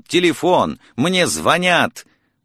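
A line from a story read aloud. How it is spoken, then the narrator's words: Nearly shouting. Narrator (Russian): Я чуть не закричал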